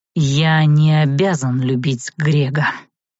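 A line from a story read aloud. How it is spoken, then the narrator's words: Hiss. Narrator (Russian): прошипел Арт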